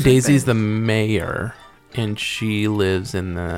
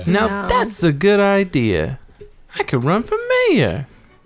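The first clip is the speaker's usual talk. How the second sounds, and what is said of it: Daisy Duck cartoon voice impression. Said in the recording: “That's my Daisy Duck impression. ... Sounds exactly like her.”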